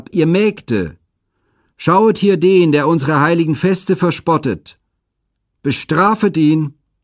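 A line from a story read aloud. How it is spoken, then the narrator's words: Loud call into valley. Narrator (German): rief mit lauter Stimme ins Tal hinab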